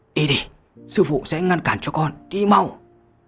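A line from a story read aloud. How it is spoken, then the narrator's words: Desperate old man's shout. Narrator (Vietnamese): Ánh mắt của lão nhân lộ ra vẻ tuyệt vọng, cắn răng quát lên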